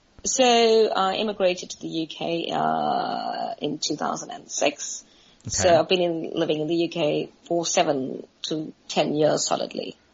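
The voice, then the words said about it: Slight South African accent. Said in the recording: “you have somewhat of an accent. Are you from South Africa?”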